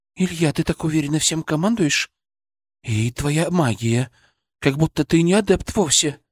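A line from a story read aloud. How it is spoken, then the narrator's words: Whisper. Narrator (Russian): прошептала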